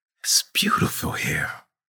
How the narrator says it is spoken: she whispered

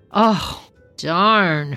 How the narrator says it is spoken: Herschel sighed

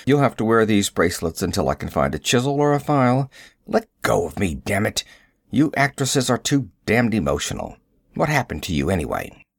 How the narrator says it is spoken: He grunting

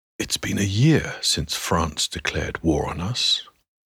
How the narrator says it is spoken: whispers the physician

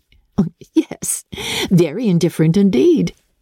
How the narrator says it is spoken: said Elizabeth laughingly

